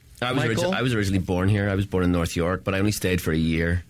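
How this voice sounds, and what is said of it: Funny Irish accent. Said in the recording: “the funny accent ... God, I love that guy's accent. It's funny, eh? And now, where in Ireland are you from?”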